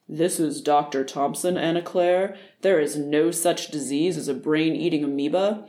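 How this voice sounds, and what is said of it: Deepened, sober authoritative voice. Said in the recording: “Here he deepened his already deep voice,”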